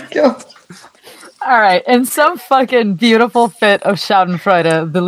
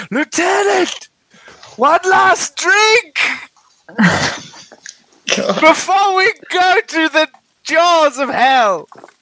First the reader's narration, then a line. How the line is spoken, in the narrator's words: she shout